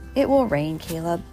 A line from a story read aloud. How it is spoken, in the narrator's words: I said